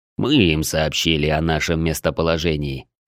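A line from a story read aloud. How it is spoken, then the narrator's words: Calm reply. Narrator (Russian): спокойно ответил Клык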